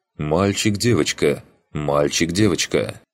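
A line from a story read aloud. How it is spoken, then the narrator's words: Stern mother. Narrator (Russian): мама строго произнесла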